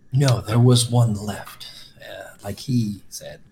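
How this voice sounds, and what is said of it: Serious put-on character voice. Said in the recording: “I don't know why I'm talking like Jago right now. ... You're talking in your super secret voice. ... Serious voice, that's right.”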